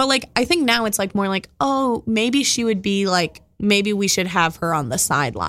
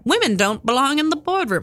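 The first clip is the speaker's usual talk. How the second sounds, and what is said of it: Put-on 1970s-style accent. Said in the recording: “that's my 1970s accent”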